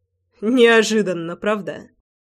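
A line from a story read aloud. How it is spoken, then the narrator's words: Chuckling. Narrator (Russian): хохотнул Львовский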